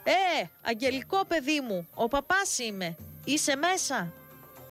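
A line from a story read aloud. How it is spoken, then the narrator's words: Loud, distinctive call. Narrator (Greek): φώναξε με τη χαρακτηριστική σε όλο το χωριό φωνή του δυνατά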